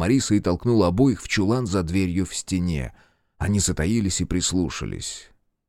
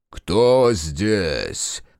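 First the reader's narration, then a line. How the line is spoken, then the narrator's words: Deep bass question. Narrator (Russian): спросили басом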